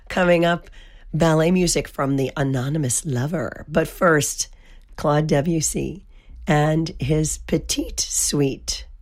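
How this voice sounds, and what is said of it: Hoarse voice. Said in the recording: “Please forgive the hoarse voice. ... I'm just sounding terrible.”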